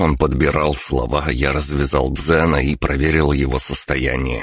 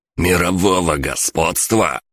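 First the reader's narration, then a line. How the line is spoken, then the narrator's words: Angry, then laughing. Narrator (Russian): со злостью повторил главарь и расхохотался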